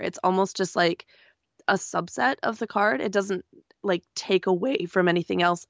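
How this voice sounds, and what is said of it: Voice sounds bad, strained. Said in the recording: “my voice is so bad. I apologize.”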